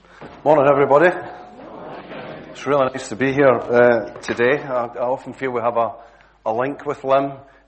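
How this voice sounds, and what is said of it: Glasgow Scottish accent. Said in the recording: “It's taken the people at Hazel Grove 20 years to kind of finally tune into my accent ... my usual Glasgow accent”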